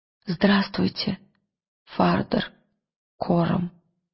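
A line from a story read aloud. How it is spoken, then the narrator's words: Quiet. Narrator (Russian): тихо сказал он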